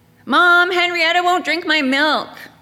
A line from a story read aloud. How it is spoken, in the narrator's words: yelled